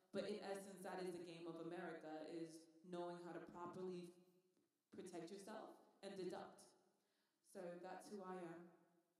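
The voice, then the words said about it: Relaxed British Manchester accent. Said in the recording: “a little British accent ... I'm from Manchester, England ... a relaxed Brit English”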